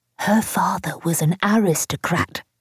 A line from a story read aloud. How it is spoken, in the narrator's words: she'd say in a stage whisper